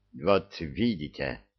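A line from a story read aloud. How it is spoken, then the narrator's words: Displeased grumble. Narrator (Russian): недовольно пробурчал артист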